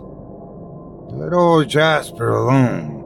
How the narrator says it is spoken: he warned in a deep voice

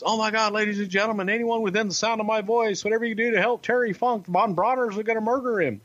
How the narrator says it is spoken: the commentator pleading with the audience

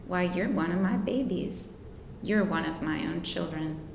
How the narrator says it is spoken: as if he were going to cry, and she murmured

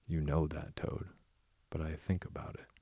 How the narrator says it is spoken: he added pathetically, in a lower tone

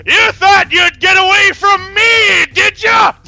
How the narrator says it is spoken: He's hooting and hollering

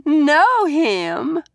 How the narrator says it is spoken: Valerie said and laughed

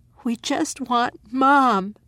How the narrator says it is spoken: Maddie said, her voice as broken as the glass

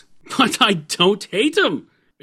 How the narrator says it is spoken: exclaimed Santa Claus positively

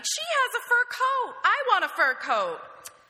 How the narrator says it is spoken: my 8-year-old self whined

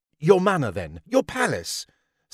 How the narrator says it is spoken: snapped the men who Lady Mary had forsaken

